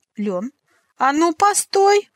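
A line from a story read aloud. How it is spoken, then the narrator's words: Yelling. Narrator (Russian): завопила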